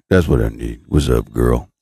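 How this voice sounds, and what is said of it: Exaggerated deep flirty voice. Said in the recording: “I need a deep voice, baby.”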